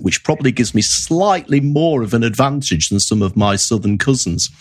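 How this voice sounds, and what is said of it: Northern English accent. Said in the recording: “I have a Northern English accent... I don't have a London accent... It's a little bit broader, less Queen's English... I don't talk as slowly and as poshly as some of my friends down south”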